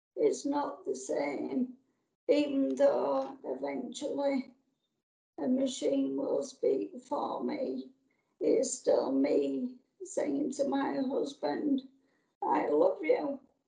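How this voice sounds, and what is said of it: Yorkshire accent. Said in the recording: “I can hear your Yorkshire accent loud and clear”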